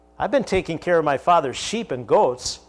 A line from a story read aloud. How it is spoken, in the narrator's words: he said